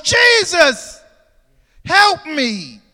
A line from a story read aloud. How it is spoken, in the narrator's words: he cried out with a loud voice